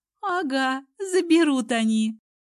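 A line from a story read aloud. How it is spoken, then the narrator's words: Cheerful exclamation. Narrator (Russian): бодро воскликнула она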